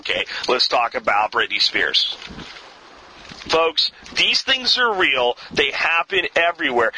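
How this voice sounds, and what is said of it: Slightly angry, agitated tone. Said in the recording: “you hear a little bit of anger in my voice ... I get a little bit agitated”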